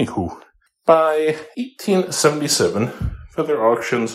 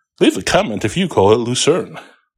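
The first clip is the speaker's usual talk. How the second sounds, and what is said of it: YouTuber-style presenter voice. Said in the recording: “in my best YouTube voice”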